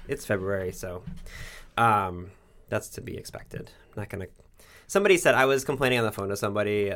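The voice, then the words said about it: Voice going hoarse. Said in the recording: “I'm losing my voice”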